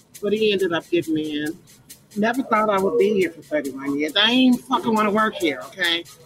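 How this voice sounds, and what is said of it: Chicago accent. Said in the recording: “As you'll immediately learn from his accent, ... is from Chicago.”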